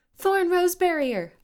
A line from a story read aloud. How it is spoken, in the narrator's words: Ivy shouted